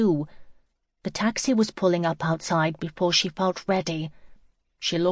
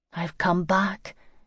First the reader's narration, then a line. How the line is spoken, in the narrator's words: she whispered